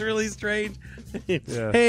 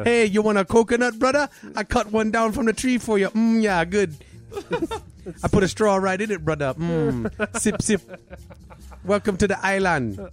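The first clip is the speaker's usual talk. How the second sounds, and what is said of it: Fake Hawaiian accent, Indian-Cockney. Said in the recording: “Your Hawaiian accent is not Hawaiian at all. It's just Indian and Cockney.”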